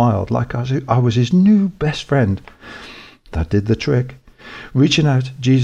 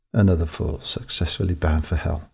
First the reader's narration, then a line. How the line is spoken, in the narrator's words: I mumbled